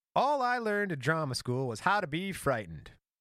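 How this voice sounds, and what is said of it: Mid-Atlantic accent imitating Ball. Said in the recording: “Man, how does Balls sound? ... You got to get more of that mid-Atlantic accent.”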